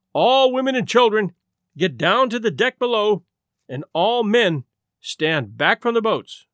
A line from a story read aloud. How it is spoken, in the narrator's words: an officer shouted above the noise of escaping steam